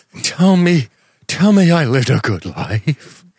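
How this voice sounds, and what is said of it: Wavery old man voice. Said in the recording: “Wavery old man voice ... that old man voice”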